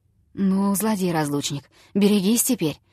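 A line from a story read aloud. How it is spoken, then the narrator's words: Muttered. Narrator (Russian): пробормотал он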